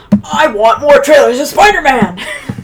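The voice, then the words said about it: Good impression of a shouting character. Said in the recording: “That was a good JJ impression. ... J. Jonah Jameson.”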